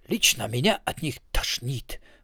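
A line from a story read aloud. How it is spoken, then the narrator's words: Sour sober mutter. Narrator (Russian): пробормотал Криозот, который чувствовал себя неприятно трезвым и не испытывал от этого особого удовольствия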